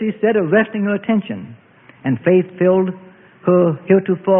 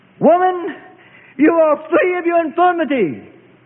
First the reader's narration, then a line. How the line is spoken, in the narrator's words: Compassion filled the master teacher's heart, and he called out to her across the sanctuary